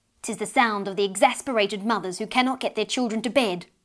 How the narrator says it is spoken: answered Beth's mother rather crossly

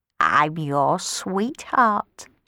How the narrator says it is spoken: she croaked

